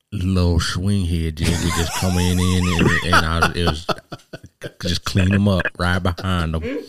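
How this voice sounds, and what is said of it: Impression of fisherman Mark Davis. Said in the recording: “do a Mark Davis impersonation? ... we watched a video of Mark Davis, fisherman.”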